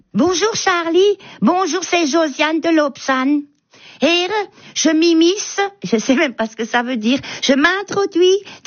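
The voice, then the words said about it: Comic character with Alsatian accent. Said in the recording (French): “reconnaissable entre mille avec son accent et puis elle se glisse dans la peau des Alsaciens”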